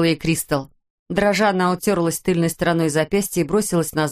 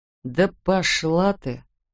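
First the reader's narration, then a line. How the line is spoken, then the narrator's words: Gloomy grumble. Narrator (Russian): мрачно буркнула Терри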